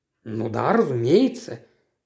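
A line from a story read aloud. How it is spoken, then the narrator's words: Muttering. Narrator (Russian): пробормотал Стиллингфит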